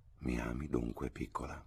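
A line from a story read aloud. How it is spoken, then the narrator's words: Murmured. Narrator (Italian): mormorò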